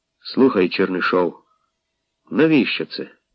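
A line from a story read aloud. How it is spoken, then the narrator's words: Quiet and reproachful. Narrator (Ukrainian): докірливо і тихо сказав Гробенко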